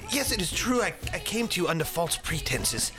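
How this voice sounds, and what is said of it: Put-on accent. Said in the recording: “third accent”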